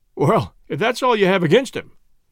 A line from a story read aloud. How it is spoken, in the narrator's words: cried McGinty with a laugh